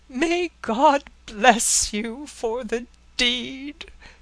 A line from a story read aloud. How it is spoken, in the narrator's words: he cried